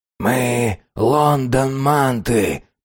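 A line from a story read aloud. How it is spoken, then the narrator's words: Moaning repetition. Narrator (Russian): повторял Фич и стонал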